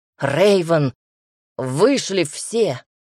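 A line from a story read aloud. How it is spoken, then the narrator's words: Growling. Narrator (Russian): зарычал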